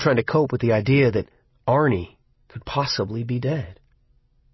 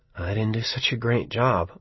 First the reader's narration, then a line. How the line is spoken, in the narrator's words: I muttered